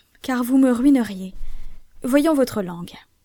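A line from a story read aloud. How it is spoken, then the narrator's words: Exclaiming. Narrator (French): s'écria-t-il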